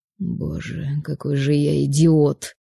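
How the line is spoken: Muffled mutter. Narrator (Russian): Закрыв лицо руками, пробормотал Павел

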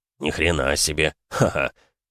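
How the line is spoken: Laughing bearded man. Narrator (Russian): хохотнул бородатый

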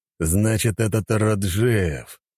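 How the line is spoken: Growl. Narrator (Russian): прорычал

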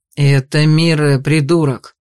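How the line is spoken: Growling. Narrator (Russian): рыкнул на него Ониксовый

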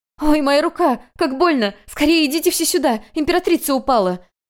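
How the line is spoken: Cry out in pain. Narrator (Russian): закричала

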